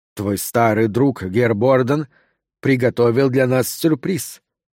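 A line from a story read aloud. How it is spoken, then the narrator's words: Cold statement. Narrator (Russian): холодно сообщил Баррент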